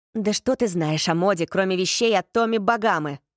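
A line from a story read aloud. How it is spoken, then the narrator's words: Scornful snort. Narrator (Russian): фыркнул Рин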